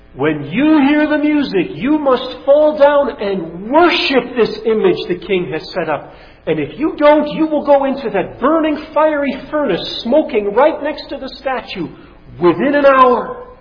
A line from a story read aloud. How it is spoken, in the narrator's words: having a herald shout for all to hear